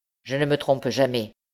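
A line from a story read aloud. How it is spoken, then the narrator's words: Curt reply. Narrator (French): répondit sèchement l'usurier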